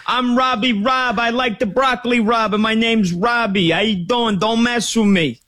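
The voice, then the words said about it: Italian mafia guy voice. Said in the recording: “sounds like an Italian mafia guy's”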